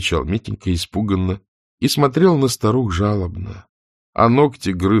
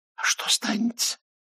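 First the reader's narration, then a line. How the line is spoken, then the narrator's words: Whispering old women. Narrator (Russian): шептали старухи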